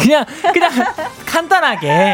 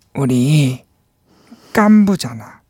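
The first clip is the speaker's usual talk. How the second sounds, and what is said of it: Imitates an old man character's voice. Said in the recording (Korean): “성대모사 달인이거든요 ... 세계적으로 화제인 오징어 게임에 노인 오일남 성대모사요 ... 느낌, 느낌만”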